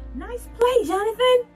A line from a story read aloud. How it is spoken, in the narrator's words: shouted Michael from the mound